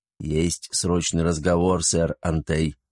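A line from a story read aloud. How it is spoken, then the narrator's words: Quiet. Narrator (Russian): негромко сообщил достойный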